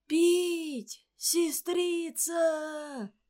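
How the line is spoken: Muffled, hollow cry. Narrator (Russian): Глухо в подземелье, как в могиле

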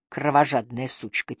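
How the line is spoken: Quiet curse. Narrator (Russian): тихо выругалась она

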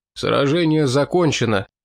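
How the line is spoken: Tired. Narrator (Russian): устало проговорил Русич

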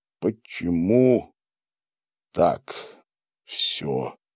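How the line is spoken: Sighing. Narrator (Russian): вздохнул Гарин

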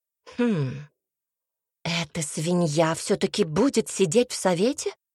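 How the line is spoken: Hissed from behind. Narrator (Russian): прошипела за его спиной Милена

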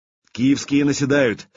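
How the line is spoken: Shouted from afar. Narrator (Russian): еще издали закричал путята

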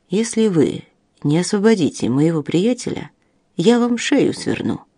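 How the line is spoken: Quiet, even voice. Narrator (Russian): сказал тихим, ровным голосом

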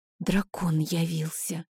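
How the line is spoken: Frightened whisper. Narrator (Russian): испуганно прошептала ведьма

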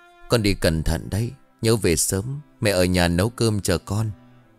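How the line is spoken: Sighing mother's reply. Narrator (Vietnamese): Bà Năm nhìn bộ dáng con gái của mình trước mặt chỉ biết thở dài rồi đáp

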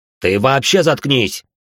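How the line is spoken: Harsh bark. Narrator (Russian): рявкнул он на нее

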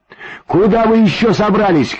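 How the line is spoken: Shouted from afar. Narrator (Russian): крикнула издалека Ксюша

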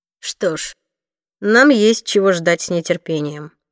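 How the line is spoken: Gloomy. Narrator (Russian): мрачно произнес Уилл

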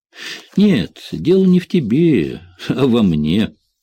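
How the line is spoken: Grumble. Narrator (Russian): буркнул Джек

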